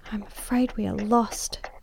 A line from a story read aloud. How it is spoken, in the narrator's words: she whispered in my ear